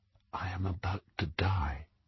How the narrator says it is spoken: He whispered

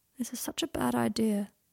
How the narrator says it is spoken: said Draco sadly

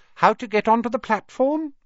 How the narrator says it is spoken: she said kindly

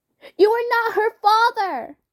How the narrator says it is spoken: Jude shouted at the man

